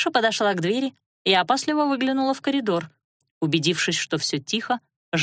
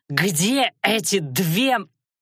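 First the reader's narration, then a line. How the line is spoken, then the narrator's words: Breathless, faltering. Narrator (Russian): он осекся, но снова выдохнул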